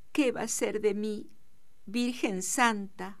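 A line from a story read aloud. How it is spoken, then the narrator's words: Murmured through sobs. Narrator (Spanish): murmuró Donata entre sollozos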